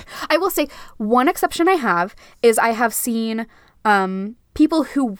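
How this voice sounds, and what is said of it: Usual voice. Nothing is said of it.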